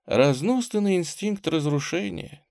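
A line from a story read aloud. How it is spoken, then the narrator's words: Quiet. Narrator (Russian): тихо сказала княжна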